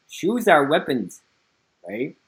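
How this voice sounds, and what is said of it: Imitated Cantonese accent. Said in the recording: “when I first met Gary Lam ... in his Cantonese accent, he's like”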